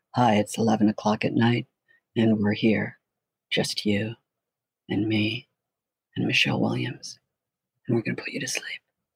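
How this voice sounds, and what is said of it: Soothing late-night FM DJ voice. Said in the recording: “my good sort of FM DJ voice”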